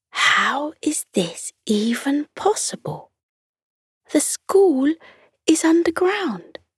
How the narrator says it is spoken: Lily whispered to Jake

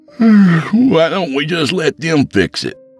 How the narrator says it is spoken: Ryan asked, yawning

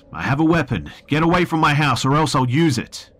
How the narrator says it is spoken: took a deep breath and yelled out

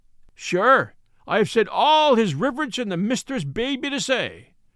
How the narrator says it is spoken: cried he, in defiance

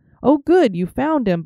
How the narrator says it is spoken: Bobby exclaimed

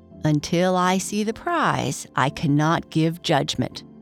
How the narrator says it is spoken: said the elephant

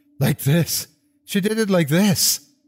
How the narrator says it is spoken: screaming, screeching

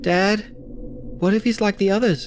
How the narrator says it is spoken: Charlie asked nervously

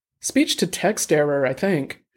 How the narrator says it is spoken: Zhang said

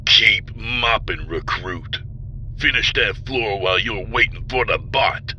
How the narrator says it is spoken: Vardle growled

